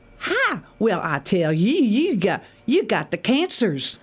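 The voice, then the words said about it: Exaggerated Deep South accent. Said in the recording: “it was like a real deep South doctor that would say”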